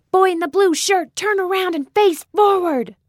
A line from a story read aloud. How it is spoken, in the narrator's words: Marcia yelled